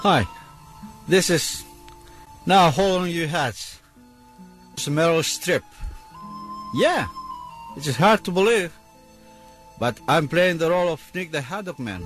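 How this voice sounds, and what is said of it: Put-on Greek accent. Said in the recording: “I can master any accent. As you can tell, I sound Greek”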